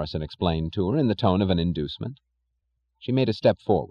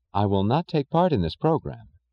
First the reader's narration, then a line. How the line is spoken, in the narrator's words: she said evenly